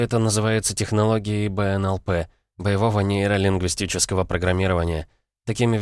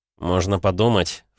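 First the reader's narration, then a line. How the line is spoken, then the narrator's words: Offended snort. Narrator (Russian): фыркнул он, обидевшись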